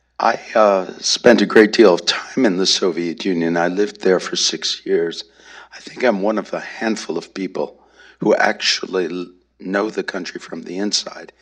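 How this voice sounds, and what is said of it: Hoarse voice. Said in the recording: “apologize for my voice. It's a little bit hoarse”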